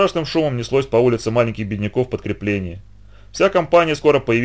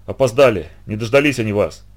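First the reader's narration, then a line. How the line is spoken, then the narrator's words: Shouting. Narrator (Russian): закричал им Зидор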